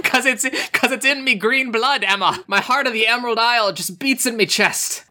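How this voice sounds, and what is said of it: Put-on Irish accent. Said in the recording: “my Irish accent's so good.”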